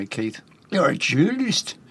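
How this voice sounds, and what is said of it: Put-on Newcastle accent. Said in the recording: “That's my Newcastle accent. ... It'll do. It's, not easy.”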